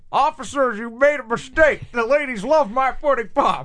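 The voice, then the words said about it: Bill Cosby impression. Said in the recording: “Even the Bill Cosby impressions now are just not the same.”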